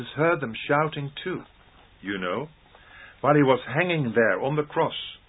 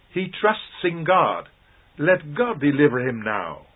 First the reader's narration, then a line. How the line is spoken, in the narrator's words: Someone shouts